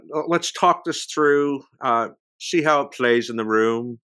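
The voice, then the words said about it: Imitates another person's voice. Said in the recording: “the entire thing was a Lorne impression ... I don't think I've ever heard your Lorne impression ... That was really good.”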